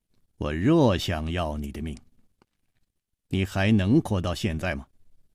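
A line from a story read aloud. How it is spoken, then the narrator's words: Cold. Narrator (Chinese): 黑衣人冷冷地说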